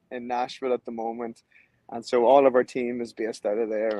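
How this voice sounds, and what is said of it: Irish accent. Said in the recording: “that doesn't sound like a New York accent... I'm from Ireland.”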